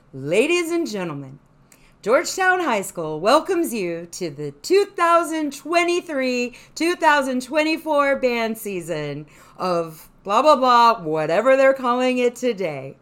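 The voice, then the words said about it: Stadium announcer voice. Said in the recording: “announcer voice ... Okay, we'll do announcing”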